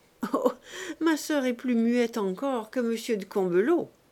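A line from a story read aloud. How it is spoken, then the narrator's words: Young man laughing. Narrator (French): dit le jeune député en riant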